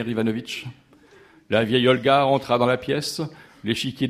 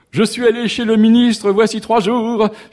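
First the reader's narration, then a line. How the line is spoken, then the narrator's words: Singing at top of voice. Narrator (French): chanta à tue-tête Anna Petrovna Oblomov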